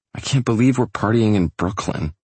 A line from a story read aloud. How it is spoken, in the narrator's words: she grumbles